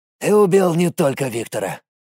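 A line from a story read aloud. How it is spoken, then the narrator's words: Gloomy middle-aged man's grumble. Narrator (Russian): буркнул мрачный, седоватый, залысинный мужик лет 50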